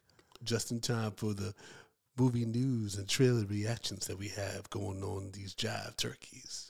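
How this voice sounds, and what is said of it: Soulful DJ voice. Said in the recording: “that soulful, soulful podcast voice”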